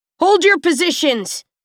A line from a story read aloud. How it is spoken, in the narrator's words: Farrar barks to his charges